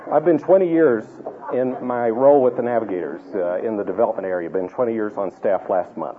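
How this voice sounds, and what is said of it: Tennessee Southern accent. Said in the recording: “I'm from Tennessee... with that accent”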